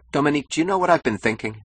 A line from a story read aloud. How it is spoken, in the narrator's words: he asked eagerly